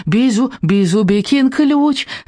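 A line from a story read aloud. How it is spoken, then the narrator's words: Joyful squeak. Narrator (Russian): радостно пискнул Бизубик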